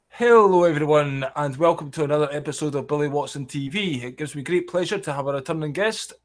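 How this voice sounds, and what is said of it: Scottish accent, fast speech. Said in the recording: “I do have a Scottish accent ... I can get a bit excited and talk quite fast ... crazy fast Scottish patter”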